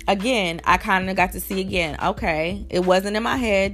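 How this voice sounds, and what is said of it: Scratchy voice. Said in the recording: “my voice is a little scratchy”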